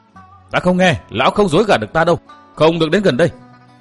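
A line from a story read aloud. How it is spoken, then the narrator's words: Shouted. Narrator (Vietnamese): Cố Kiếm Nam quát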